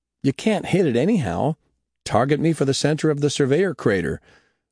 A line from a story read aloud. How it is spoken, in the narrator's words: He blurted